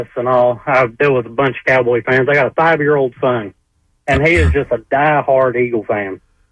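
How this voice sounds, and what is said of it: Slight Texan accent. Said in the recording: “You got a little bit of an accent going... I'm from Texas.”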